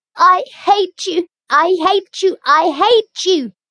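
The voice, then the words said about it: Choked, emotional shouting voice. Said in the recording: “she cried in a choked voice”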